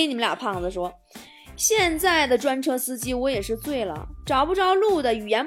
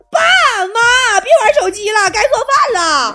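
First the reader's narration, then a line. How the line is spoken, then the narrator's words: Loud yelling. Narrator (Chinese): 我嗷嗷跟我妈我爸喊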